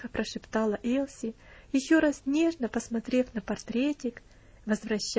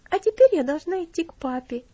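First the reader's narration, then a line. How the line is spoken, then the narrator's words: Cheerful. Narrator (Russian): весело сказала она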